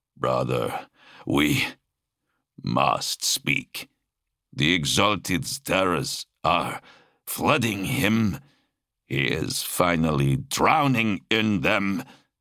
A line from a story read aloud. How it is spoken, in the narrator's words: In a broken voice that reached only Talos, he said